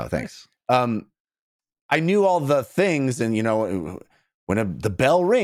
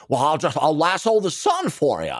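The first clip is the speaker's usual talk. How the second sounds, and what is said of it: Imitates another person's voice. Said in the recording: “Good impression”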